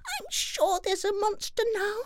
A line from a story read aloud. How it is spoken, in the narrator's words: Baby Bear cried